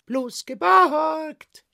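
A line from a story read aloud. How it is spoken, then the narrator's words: Dragon shouting. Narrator (German): rief der Drache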